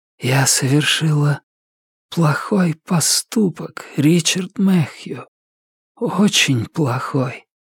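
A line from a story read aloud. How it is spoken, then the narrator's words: Sad whisper. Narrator (Russian): печально прошептала охотница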